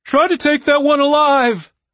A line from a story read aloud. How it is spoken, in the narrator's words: Chaz yelled after them